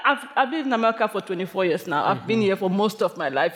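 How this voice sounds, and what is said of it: Cameroonian-accented English. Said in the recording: “they hear my accent”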